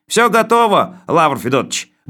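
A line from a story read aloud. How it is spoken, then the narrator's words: Cheerful, from a distance. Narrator (Russian): бодро сообщил он оттуда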